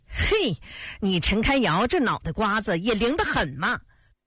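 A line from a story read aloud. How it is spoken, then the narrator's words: Laughing, amused. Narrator (Chinese): 安子文也笑了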